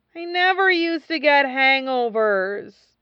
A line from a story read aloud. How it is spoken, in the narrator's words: he moaned to Lan Wangji